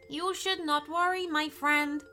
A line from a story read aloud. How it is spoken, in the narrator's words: said Chester